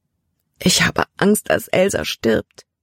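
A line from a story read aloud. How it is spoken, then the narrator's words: Sobbing. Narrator (German): schluchzte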